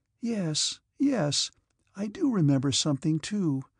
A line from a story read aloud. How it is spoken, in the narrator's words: Sonia answered timidly